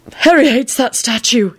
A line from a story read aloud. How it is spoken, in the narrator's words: he gasped out